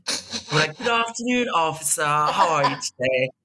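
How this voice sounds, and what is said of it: Put-on English Australian accent. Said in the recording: “you pull your most English and Australian accent.”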